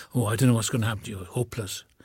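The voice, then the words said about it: Imitated Welsh accent of father. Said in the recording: “you would say, in his Welsh accent.”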